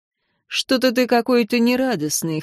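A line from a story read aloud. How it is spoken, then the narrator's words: Wry snort. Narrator (Russian): хмыкнул император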